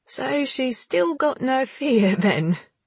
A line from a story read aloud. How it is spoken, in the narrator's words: giggled Leah